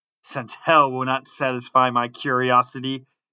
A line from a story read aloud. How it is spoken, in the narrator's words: said Manfred